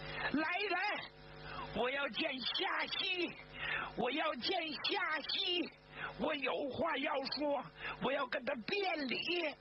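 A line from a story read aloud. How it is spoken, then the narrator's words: Loud, emotional shouting from outside. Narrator (Chinese): 他再也控制不住自己的情绪了，就大声的从外边喊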